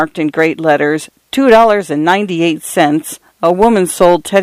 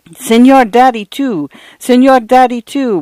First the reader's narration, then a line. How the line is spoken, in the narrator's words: would come Paula's protesting wail, 20 desperate squirming inches